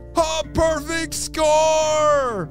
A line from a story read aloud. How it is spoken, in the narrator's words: Cooper roared with excitement